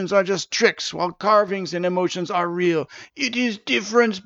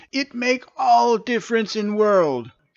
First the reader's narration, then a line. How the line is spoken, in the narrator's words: exclaimed Stavius